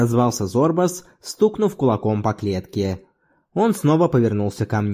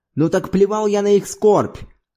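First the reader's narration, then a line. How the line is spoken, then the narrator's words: Indignant shout. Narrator (Russian): крикнул Зорбас возмущенно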